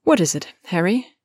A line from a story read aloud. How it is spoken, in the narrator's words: she asked, her voice calm